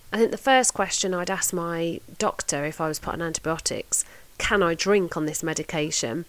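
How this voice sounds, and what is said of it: Congested, thick voice from a cold. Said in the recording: “I don't know if you can hear it in my voice, but I'm a bit thick with cold at the minute”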